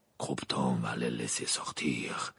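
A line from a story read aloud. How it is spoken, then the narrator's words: Murmur. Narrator (French): murmura Maugrey à Dumbledore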